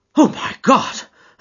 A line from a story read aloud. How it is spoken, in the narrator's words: I gasped